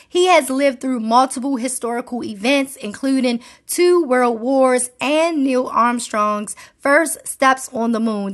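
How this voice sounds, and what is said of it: Baltimore accent. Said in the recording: “the Baltimore accent be trying to come out”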